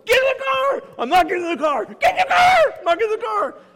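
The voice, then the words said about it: Yelling. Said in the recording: “He's yelling”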